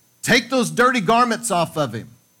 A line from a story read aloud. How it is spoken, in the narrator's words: Zechariah shouted out and said